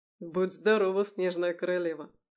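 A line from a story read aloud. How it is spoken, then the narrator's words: Laughing. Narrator (Russian): хохотнул Михаил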